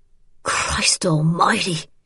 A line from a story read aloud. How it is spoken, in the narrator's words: gasping